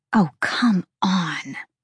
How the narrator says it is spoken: Bryce hissed

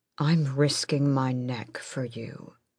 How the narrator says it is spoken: he said too quietly

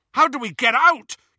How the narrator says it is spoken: yelled Ron over all the screaming

